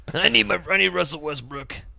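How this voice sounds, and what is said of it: Impression sounding like an old man. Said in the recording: “your Harden impersonation sounds like Jim Traver. ... An old man.”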